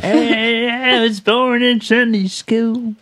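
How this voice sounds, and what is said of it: Put-on old geezer voice. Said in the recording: “What kind of accent is that? ... like old geezer kind of.”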